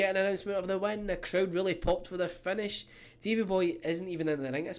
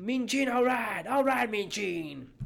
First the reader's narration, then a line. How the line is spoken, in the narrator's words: Albano is shouting